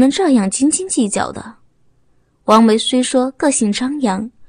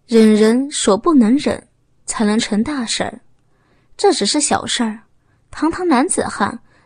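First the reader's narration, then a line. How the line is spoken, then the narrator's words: Sighing, earnest. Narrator (Chinese): 刘平长叹了一声，不忍责备，语重心长的说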